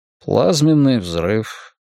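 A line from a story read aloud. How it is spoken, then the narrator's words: Quiet. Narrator (Russian): тихо сказал генерал Ван Зейт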